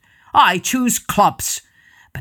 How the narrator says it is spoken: The brawny warrior growled

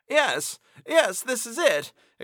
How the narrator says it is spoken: exclaimed Kovalov

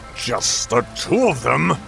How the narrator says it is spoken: He gritted his teeth and sneered

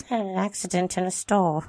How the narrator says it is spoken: David replied in a mumbled voice

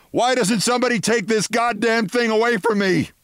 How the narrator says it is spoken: a great-grandmother struggling with a butter churn and screaming into the void

